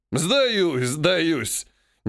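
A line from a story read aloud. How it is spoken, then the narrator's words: Old man laughing. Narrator (Russian): Дед, смеясь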